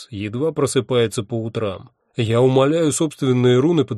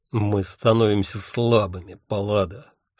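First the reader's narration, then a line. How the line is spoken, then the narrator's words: Furious, through clenched teeth. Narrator (Russian): сквозь зубы сказал я и сам удивился собственной ярости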